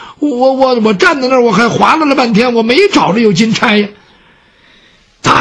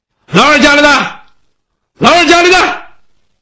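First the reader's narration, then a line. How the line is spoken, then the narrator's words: Calling out. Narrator (Chinese): 他冲那屋喊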